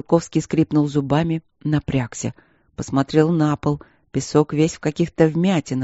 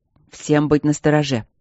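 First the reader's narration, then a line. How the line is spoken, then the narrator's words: Through gritted teeth. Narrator (Russian): процедил он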